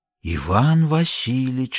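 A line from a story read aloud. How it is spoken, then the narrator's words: Whispered. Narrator (Russian): шепнул он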